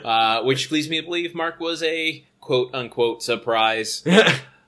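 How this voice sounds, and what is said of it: Robotic voice. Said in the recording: “Why did you say it in robot voice?”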